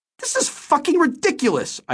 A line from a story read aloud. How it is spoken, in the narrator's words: I cried